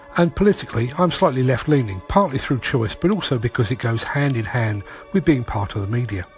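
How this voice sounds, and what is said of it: London English accent. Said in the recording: “I'm a Londoner by birth, as you can probably tell by my accent.”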